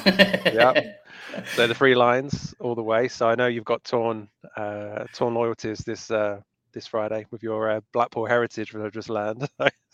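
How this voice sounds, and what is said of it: English accent. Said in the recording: “You'll tell by the accent ... I'm originally from England, the UK.”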